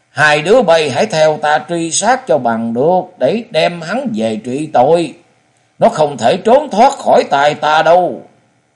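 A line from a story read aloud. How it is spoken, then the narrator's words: Furious loud shout. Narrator (Vietnamese): Phổ Liễu bà càng thêm giận dữ quát to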